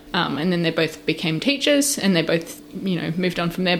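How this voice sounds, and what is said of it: Australian accent that sounds English. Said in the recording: “I consider my accent Australian, but people keep telling me I sound English ... I've lost my, like, Australian twang”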